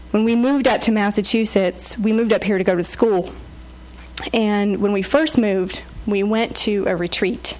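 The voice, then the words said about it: South Carolina accent. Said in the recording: “you probably caught some of my South Carolina accent while I've been talking”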